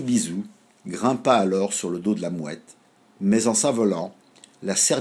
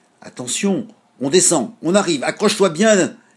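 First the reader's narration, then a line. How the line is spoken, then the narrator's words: Shouting seagull. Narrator (French): l'Izoubizou cria la mouette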